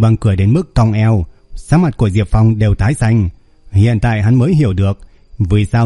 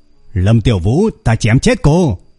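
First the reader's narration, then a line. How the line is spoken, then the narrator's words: Furious hissing scream. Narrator (Vietnamese): Diệp Phong rít gào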